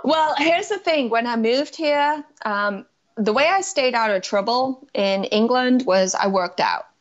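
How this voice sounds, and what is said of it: Liverpool accent mixed with Southern US. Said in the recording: “your strange speaking pattern and dialect. ... the baseline of what I refer to as like the Liverpool accent, the northwestern England accent. ... you throw in these southern pronunciations of words every once in a while”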